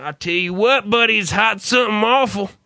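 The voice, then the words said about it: Bad put-on Southern accent. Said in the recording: “I decided to have a southern accent ... such a really bad accent”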